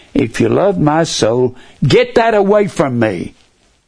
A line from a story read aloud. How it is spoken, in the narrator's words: he cried